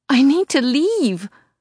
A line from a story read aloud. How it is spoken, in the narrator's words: I wail